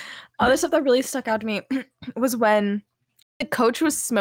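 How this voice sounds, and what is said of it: Usual voice. Nothing is said of it.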